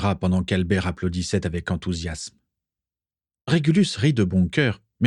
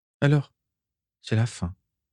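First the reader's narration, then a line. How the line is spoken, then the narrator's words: Sigh. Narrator (French): soupira-t-il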